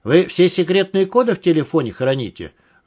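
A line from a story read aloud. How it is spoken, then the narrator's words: Angry question. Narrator (Russian): зло спросил Тимур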